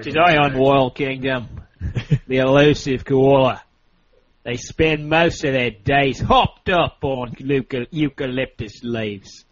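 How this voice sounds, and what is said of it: Put-on British accent, nature narration. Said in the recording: “I just want to pretend like I'm British ... I'll start British, and then I'll become Scottish, and then Irish for a little bit”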